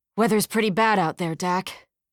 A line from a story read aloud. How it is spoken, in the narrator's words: Runyon grunted